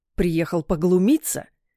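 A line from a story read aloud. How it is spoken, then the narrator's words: Growling. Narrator (Russian): прорычал Алмазов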